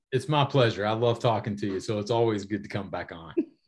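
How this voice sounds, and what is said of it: Speaks with a noticeable accent. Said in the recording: “See that accent? Love that accent.”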